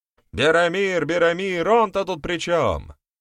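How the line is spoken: Shouted out. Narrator (Russian): выкрикнул кто-то

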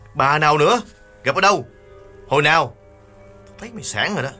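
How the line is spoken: Irritated snap. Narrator (Vietnamese): Nghiên bực bội gắt

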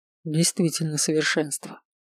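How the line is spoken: Mumbling. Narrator (Russian): пробормотал Далагарди

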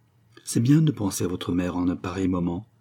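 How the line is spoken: Half-voiced. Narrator (French): dit Geneviève à mi-voix

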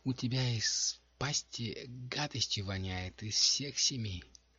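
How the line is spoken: Disapproving inner groan. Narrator (Russian): домино про себя неодобрительно застонала

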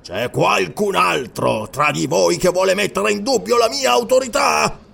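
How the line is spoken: Roar. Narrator (Italian): Ruggì

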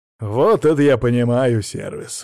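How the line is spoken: Snort. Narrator (Russian): хмыкнул я

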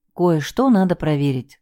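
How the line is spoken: Sighing. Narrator (Russian): вздохнула я

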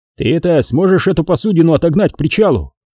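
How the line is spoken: Shout. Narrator (Russian): крикнул Рябошеев

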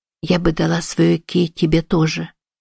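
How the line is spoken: Anxious mumble. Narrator (Russian): пробормотала Эми, охваченная смутной тревогой

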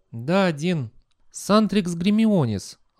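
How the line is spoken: Sigh. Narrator (Russian): она вздохнула

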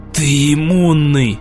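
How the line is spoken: Hateful, through gritted teeth. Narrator (Russian): С ненавистью процедил он

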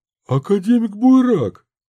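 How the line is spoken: Exclaimed. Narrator (Russian): воскликнул Минц

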